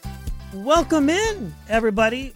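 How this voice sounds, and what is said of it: Voice goes unusually high-pitched. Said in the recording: “my voice just went really high there”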